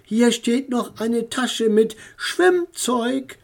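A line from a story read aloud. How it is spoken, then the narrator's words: Calling to the children. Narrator (German): rief den Kindern zu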